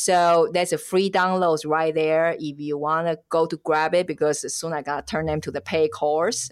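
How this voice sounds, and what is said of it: Strong non-native accent. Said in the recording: “She sounds funny because she has so messed up accent”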